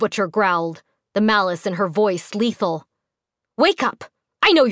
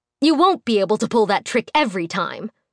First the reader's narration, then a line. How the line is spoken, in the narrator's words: the woman spat